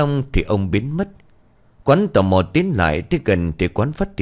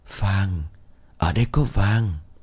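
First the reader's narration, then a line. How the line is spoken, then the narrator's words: Old man's whisper. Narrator (Vietnamese): Giọng của ông thì thào vang lên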